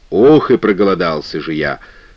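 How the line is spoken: Insect seller muttering. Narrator (Russian): пробормотал продавец насекомых

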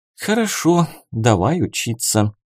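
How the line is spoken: Genuine sigh. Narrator (Russian): уже непритворно вздохнула она

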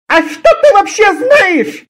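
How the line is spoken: Shout. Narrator (Russian): закричала Зоя

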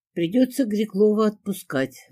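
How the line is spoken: Sighing. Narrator (Russian): вздохнул Кирьянов

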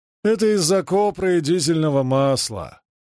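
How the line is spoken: Gloomy explanation. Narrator (Russian): мрачно объяснил Генри

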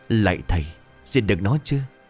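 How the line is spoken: Trembling stammer. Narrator (Vietnamese): run rẩy chân tay, chỉ biết lắp bắp

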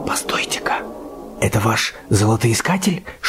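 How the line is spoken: Whispered question. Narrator (Russian): шепотом спросил Боб

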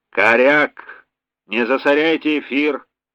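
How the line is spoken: Stern unseen voice. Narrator (Russian): строго произнес невидимый Василий Васильевич

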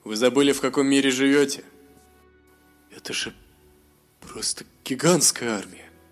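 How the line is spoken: Trembling mumble. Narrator (Russian): С дрожью в голосе промямлил Мируэль

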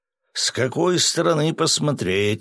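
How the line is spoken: Snort. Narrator (Russian): хмыкнул Свят

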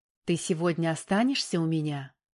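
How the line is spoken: Passionate whisper in ear. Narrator (Russian): горячо зашептала в ухо Оксана

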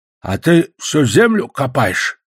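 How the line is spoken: Angry question. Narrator (Russian): зло спросил он

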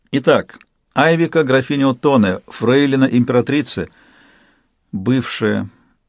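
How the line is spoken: Dull flat voice. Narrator (Russian): сказала каким-то тусклым голосом

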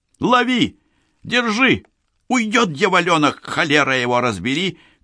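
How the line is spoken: Shrill woman shouting nearby. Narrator (Russian): кричал визгливый бабий голос неподалеку

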